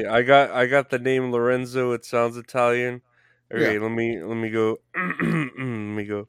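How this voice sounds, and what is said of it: Usual voice. Nothing is said of it.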